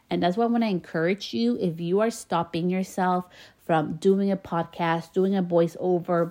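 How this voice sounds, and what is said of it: Slight Spanish-influenced accent in English. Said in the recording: “I have a little bit of an accent. I can hear a little bit of my accent in English.”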